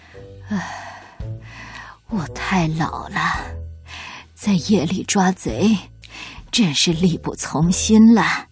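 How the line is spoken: Old man sighing. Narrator (Chinese): 水壶爷爷叹了口气

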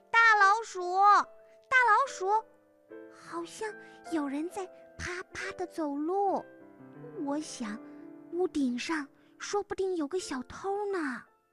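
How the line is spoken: Little mouse calling out. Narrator (Chinese): 小老鼠又喊了起来

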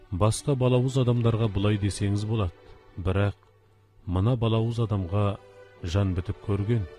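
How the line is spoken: Whisper. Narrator (Kazakh): Сакшы сыбырлап

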